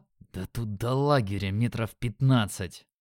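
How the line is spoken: Angry hiss. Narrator (Russian): злобно зашипел я

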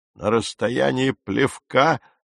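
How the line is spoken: Exclamation then laughter. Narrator (Russian): воскликнул мистер Кристиан и рассмеялся

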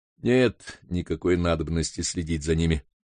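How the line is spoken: Plain. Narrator (Russian): сказал Холмс

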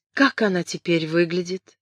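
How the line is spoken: Timid question. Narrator (Russian): робко спросила Кэтрин

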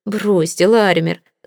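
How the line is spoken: Laughing. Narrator (Russian): засмеялся я

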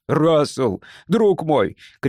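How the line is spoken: Shouting. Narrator (Russian): кричал Айрек

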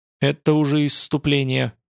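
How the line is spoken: Gloomy. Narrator (Russian): произнес Придон мрачно

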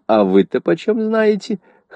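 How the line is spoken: Shrill squeal. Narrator (Russian): Хеллам взвизгнул

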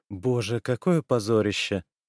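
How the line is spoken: Groaning. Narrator (Russian): простонала

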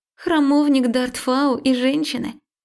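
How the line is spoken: Laughing. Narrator (Russian): Марика как-то даже засмеялась

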